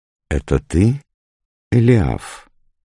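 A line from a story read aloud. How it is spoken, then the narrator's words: Queen asking. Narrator (Russian): спросила царица юношу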